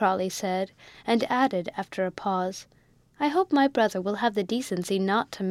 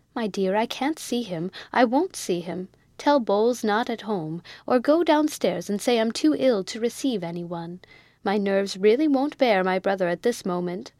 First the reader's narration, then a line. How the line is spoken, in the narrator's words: cried out Miss Crawley